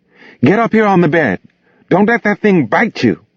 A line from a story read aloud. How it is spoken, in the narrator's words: the woman screamed